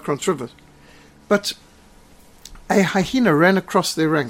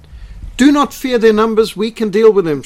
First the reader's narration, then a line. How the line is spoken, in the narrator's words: shouted Pretorius